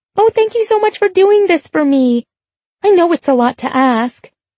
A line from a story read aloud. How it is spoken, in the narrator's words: she squeaks